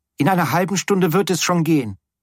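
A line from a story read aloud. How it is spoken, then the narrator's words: Calling out. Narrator (German): rief es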